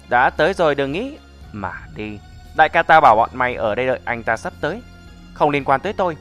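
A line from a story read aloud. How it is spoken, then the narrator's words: Mocking voice. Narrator (Vietnamese): từ cửa truyền ra giọng mỉa mai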